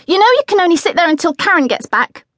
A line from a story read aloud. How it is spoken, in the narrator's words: snapped